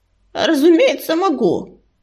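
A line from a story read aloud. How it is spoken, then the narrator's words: Hoarse, strained old man snapping. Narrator (Russian): Хрипло огрызнулся старик, с усилием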